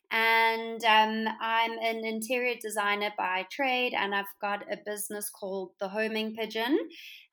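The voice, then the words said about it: South African accent. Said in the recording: “if you can't tell by my accent, I'm from South mm-hmm. Africa.”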